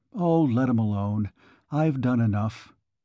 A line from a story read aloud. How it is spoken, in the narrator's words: She sighed